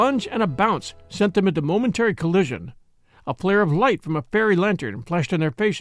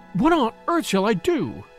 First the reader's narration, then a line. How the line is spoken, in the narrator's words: she cried